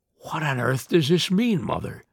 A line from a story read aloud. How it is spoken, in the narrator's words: he gasped